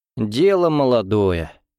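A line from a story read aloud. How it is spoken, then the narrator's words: Weary, aged sigh. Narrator (Russian): вздохнул полковник, чувствуя себя почти старым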